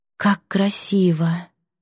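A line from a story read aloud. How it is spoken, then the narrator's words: Breathless delighted exclamation. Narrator (Russian): Забыв об усталости, выдохнула Мелания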